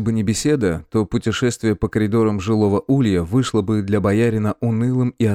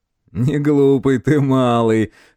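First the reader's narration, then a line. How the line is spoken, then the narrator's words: Chuckling reply. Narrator (Russian): хохотнул тот в ответ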